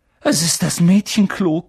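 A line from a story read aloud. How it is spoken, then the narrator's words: Panting. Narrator (German): keuchte Harry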